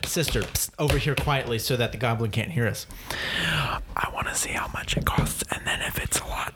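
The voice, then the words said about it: Whispering. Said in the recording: “I'm whispering for effect so that the goblin can't hear us.”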